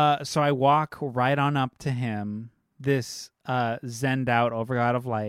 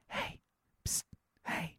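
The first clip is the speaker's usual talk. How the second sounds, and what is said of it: Whispering. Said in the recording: “whisper”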